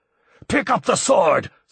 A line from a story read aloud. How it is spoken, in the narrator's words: screamed Bertol